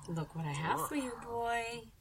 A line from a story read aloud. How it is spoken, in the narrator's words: Stella said through gritted teeth